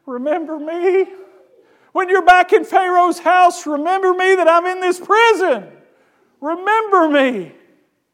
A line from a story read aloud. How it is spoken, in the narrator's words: Joseph pleads with him